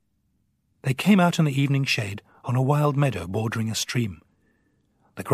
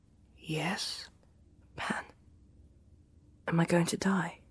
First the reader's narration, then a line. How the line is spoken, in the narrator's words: Pantalaimon whispered